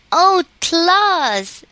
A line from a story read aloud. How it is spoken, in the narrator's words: she cried, clapping her small hands together with rapture